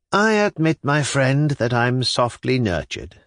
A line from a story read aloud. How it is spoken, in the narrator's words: said Skuratov with a gentle sigh, as though he were really reproaching himself for his softness